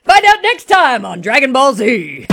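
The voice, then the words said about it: Dramatic TV announcer voice. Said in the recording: “announcer voice”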